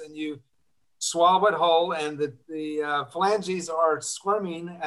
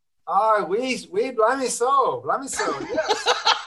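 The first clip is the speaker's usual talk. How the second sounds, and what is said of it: Good put-on Scottish accent. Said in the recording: “can you do a Scottish accent? ... oh, that's so good. That's so good. ... I love it when people can do a good Scottish accent”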